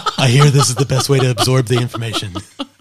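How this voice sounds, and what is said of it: Imitates another person's voice. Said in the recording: “I don't know why I sound like Bernie Sanders. ... That's my best Trump imitating Bernie Sanders.”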